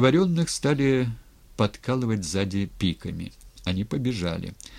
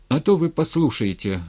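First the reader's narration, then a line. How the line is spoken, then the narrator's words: Bitter exclamation. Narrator (Russian): горько воскликнул Матвей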